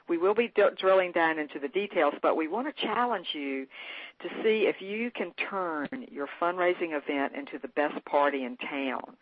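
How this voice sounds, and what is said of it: Southern US accent. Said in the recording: “we are Southern, so you'll probably hear a little bit of this accent.”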